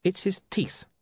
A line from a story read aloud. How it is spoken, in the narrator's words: he said coldly